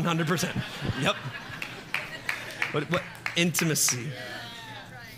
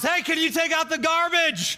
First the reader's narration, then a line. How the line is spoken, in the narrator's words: her to yell across the house